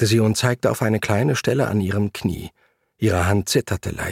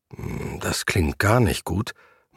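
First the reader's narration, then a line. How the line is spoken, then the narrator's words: Murmur. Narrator (German): murmelte ich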